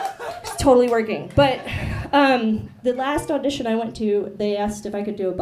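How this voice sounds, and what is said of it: Usual voice. Nothing is said of it.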